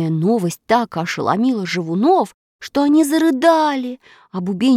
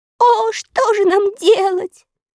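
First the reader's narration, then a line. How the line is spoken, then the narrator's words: Inconsolable sobbing. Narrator (Russian): безутешно рыдали живуны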